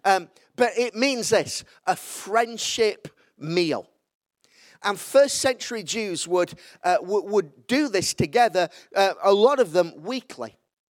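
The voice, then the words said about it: Yorkshire English accent. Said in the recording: “you can't speak Hebrew in a Yorkshire accent, can you?”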